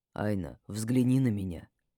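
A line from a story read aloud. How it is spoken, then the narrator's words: Quiet speech. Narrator (Russian): тихо проговорил он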